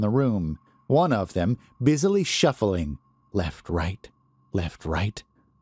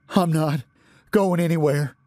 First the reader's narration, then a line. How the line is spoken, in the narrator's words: he panted